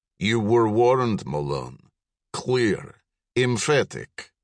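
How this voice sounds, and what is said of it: Russian accent. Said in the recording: “with a Russian accent”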